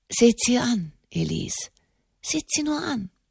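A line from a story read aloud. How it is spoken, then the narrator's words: Murmured. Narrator (German): murmelte Enimont de Montalier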